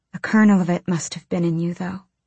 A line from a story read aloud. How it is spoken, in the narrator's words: she whispered